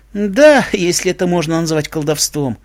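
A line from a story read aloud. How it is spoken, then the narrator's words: Sighing unicorn. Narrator (Russian): вздохнула единорожка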